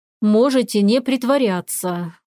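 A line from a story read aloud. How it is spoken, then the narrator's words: Weary male exhale. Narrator (Russian): устало выдохнул мужчина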